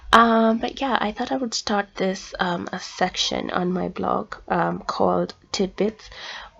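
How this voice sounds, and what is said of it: Slightly rusty, congested voice. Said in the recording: “I have a cold, so my voice may be a little rusty.”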